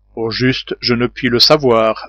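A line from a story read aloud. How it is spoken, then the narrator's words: Plain. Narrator (French): répondit l'ingénieur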